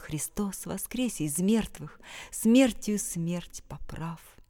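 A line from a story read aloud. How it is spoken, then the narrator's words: Muffled, strange priest's voice. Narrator (Russian): Голос отца Петра звучал в пустой, заброшенной церкви глухо и странно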